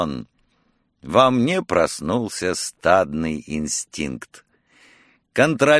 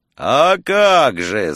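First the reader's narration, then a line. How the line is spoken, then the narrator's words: Yelling. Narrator (Russian): заорал Фурмтень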